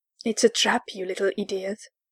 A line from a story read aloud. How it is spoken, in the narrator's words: hissed